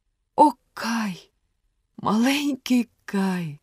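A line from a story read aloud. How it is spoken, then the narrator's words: Sighing. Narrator (Ukrainian): зітхнула Герда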